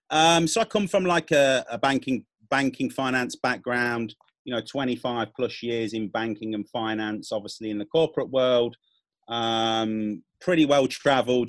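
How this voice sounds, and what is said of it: British accent. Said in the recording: “I'm from the UK, you can tell by my accent”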